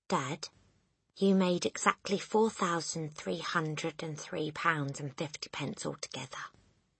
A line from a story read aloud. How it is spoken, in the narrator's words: Matilda said quietly